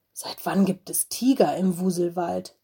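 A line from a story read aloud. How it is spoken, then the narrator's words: Frightened hiss. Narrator (German): zischte Mino erschrocken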